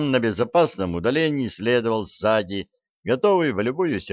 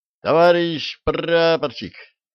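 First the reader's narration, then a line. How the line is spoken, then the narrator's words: Yelling in chorus. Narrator (Russian): хором заорали бойцы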